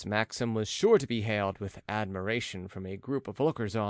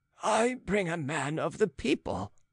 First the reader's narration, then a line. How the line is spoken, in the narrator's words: retorted the old man hotly, feeling a little piqued at this exclusiveness